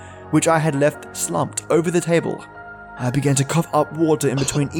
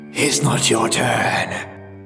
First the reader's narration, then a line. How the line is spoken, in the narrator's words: the oracle hissed